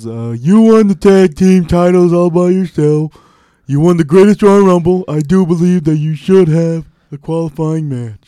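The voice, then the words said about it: Imitates another person's voice. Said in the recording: “You sound like when you do a Kurt Angle impersonation.”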